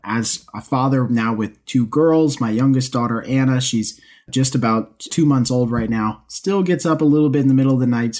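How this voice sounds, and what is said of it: Slightly raspy early-morning voice. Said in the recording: “it's about 4:15 in the morning here, so if my voice is a little raspy, you have to excuse me.”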